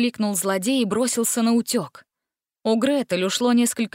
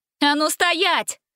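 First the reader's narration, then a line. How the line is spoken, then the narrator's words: Shout. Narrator (Russian): крикнула Гретель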